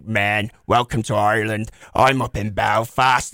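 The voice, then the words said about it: Put-on Northern Irish Belfast accent. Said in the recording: “when you go to the North, they sound like ... It's a very down accent”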